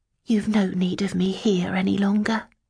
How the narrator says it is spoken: said softly

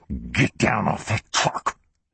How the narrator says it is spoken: hissed

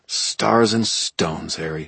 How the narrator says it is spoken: muttered, my heart pounding

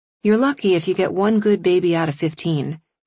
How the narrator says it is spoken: sighed

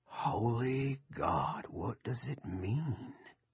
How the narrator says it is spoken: Sea Dogs whispered

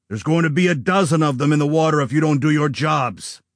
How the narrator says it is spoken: Gray barked

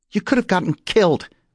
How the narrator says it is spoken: snapped Dez

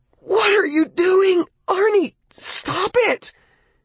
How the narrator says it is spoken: It was like being stabbed with knives, and screamed

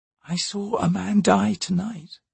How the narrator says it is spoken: Shalice said quietly

